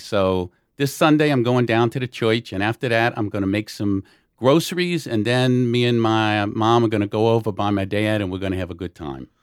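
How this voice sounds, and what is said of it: Put-on New Orleans yat accent. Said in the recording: “the true New Orleans accent is what they call a yat accent”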